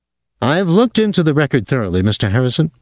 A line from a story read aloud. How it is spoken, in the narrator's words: Dorlacher said